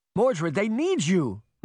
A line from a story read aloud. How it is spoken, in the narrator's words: Morgan cried